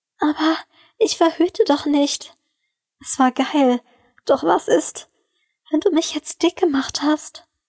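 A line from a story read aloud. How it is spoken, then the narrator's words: Stammering. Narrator (German): stammelte sie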